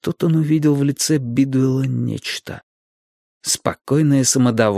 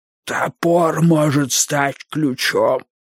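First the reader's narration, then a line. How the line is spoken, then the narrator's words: Strained hoarse rasp. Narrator (Russian): сумел прохрипеть Вудвард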